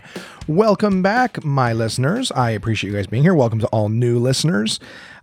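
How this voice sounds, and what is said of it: Hoarse, congested voice. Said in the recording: “my voice is a little bit screwed up this week ... horrible ragweed allergies ... my throat's fucked. My sinuses are screwed. I'm coughing.”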